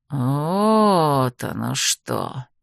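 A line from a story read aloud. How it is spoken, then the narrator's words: Disappointed drawl. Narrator (Russian): разочарованно протянул он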